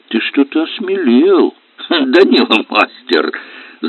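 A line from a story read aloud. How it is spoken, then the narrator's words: Laughing, youthful man. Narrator (Russian): засмеялся моложавый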